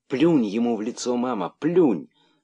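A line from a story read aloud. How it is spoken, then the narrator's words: Joyful excited whisper, young monkey. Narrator (Russian): радостно прошептала мартышка-дочка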